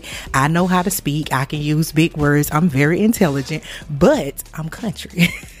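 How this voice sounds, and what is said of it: American country accent. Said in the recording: “as you notice, I'm country ... You're going to hear this country accent”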